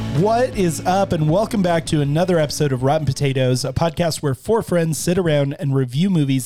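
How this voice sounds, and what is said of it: Hoarse, fading voice. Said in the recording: “As you can hear, I'm losing my voice”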